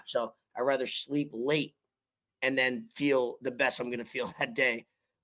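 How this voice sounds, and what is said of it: Hoarse, raspy voice. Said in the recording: “My voice is a little hoarse, more raspy than usual.”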